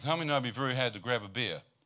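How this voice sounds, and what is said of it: Speaks with a regional accent. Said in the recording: “Did you understand my accent?”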